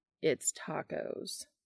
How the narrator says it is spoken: Castiel says dryly

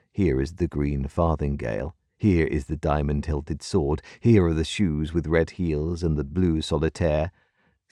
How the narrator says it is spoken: sounded gravely

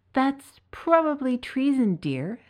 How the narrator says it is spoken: sighed his good wife

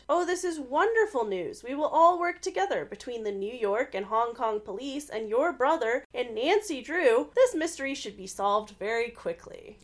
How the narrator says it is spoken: Bess exclaimed

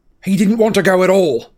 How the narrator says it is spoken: said Harry angrily

